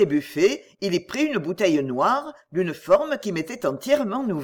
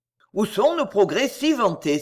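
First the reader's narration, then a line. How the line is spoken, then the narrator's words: Exclaimed. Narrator (French): s'écria-t-il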